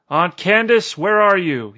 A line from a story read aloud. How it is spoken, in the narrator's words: he called out in a loud voice